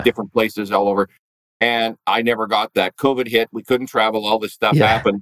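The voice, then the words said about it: Canadian accent. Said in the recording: “apparently I've regained my quote unquote Canadian accent.”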